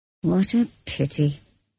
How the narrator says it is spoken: he sighed

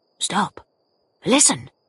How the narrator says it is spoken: whispered Troy

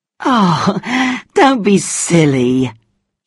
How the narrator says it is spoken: laughed

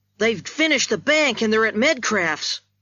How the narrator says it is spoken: he shouted as he went by

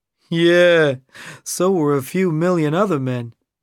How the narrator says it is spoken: Rick said with a laugh

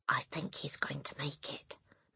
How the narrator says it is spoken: Matilda whispered

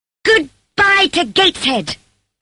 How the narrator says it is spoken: I shouted wildly

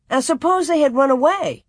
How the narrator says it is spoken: Almanzo then asked her indignantly

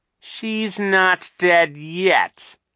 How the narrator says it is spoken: Captain Sham said in a terrible voice

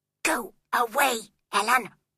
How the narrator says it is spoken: She whispered crossly

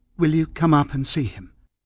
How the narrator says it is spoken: asked in a steady voice

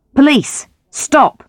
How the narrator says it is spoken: shouted Grant, running across the road after Campbell

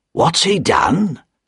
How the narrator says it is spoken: Jerry asked the doorman quietly

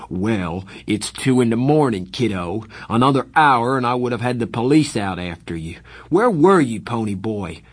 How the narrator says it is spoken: His voice was rising

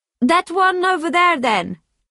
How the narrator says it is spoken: shouted

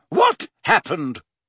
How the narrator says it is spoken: she said sharply

